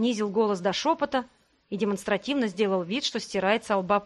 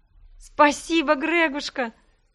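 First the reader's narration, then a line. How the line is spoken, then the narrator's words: Cheerful laughter. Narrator (Russian): Я весело рассмеялась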